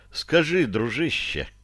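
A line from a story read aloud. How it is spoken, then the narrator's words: Deliberately ingratiating. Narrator (Russian): я продолжил нарочито вкрадчиво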